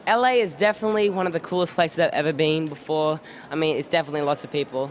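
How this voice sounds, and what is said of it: Australian accent. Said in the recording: “I definitely am from Australia. You can tell by my accent.”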